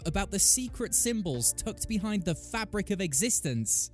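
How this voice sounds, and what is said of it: Angry yelling. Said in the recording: “I should raise my voice and be so angry and pissed off ... Sorry for yelling”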